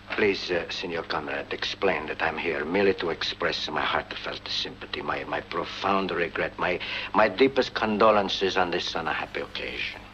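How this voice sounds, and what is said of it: Unplaceable foreign accent. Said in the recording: “Best Non-Identifiable Accent That Could Come From Any Country in the World”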